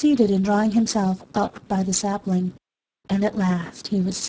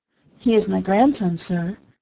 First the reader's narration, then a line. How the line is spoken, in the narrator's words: answered the woman